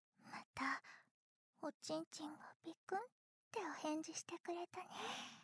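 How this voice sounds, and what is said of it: Whispering voice. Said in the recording (Japanese): “ささやきボイス ... ささやかれながら”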